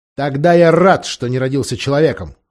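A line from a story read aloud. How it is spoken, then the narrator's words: Cold reply. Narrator (Russian): холодно отвечал Репичип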